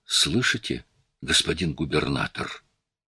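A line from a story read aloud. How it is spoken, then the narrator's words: Whispered question. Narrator (Russian): Пилот шепотом спросил Буссара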